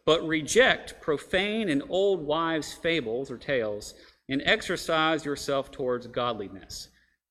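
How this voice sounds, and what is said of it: Reading with a sudden twang. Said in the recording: “I don't know why I got a twang there, but I did.”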